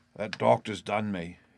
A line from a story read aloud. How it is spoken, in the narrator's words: he murmured